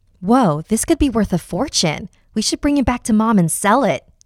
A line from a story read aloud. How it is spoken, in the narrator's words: Jamie exclaimed